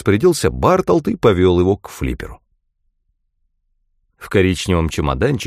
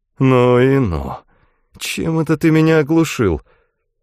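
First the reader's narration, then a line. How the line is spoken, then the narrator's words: Groaning, in modern English. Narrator (Russian): Байертр застонал и сказал на современном английском языке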